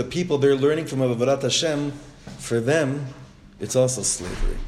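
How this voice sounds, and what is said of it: Usual voice. Nothing is said of it.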